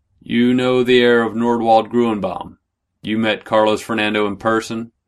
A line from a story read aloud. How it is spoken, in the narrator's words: Jaramillo said, his voice now flat and expressionless